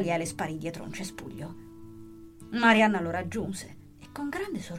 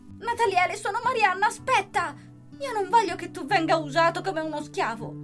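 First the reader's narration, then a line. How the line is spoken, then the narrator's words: Shouting. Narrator (Italian): la classe e il professore, urlando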